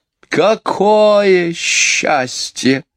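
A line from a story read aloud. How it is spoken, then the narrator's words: Loud sigh. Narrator (Russian): громко вздохнула мисс Ларк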